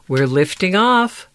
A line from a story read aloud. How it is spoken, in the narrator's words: gasped Box